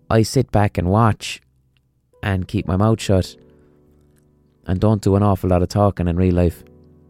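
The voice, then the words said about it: Speaks with a distinctive regional accent. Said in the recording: “My accent is giving me away in real life situations”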